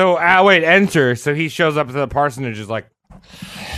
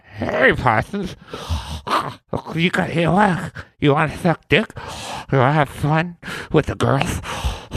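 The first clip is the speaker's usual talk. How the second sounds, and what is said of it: Joe Besser and Mike Tyson impression. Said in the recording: “Wow, what a good Joe Besser impression. ... it's Joe Besser and Mike Tyson in one.”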